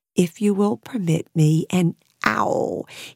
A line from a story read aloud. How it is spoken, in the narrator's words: he murmured